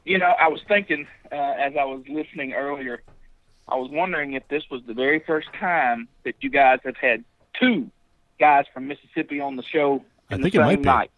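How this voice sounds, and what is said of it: Strong Mississippi Southern accent. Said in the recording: “it's like you're doing an awesome impression of yourself because your accent is wonderful”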